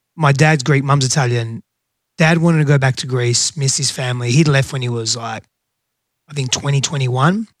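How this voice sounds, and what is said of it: Australian accent. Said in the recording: “The accent's not from the South. I grew up in Australia and hence the accent”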